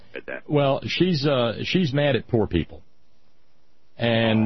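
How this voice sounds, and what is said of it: Usual voice. Nothing is said of it.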